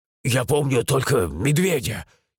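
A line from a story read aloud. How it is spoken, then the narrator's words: Frightened reply. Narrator (Russian): испуганно отозвался Славик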